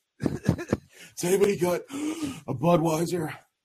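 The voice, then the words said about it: Imitates another person's voice. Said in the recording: “hear my impression of Hercules”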